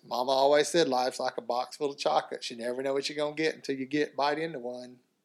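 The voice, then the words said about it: Southern accent, character impression. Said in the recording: “I can't speak Southern. Can you can do that, right? ... You sure sound a very good, good Forrest Gump ... I love the accent”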